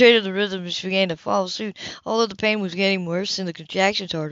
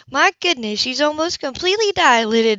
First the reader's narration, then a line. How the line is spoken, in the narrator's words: the obstetrician exclaimed